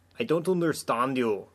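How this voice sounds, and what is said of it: Thick put-on German accent. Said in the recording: “she'd say in a thick German accent. That was my best German accent.”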